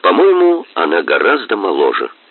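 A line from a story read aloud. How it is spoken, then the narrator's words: Plain. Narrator (Russian): сказал Мазур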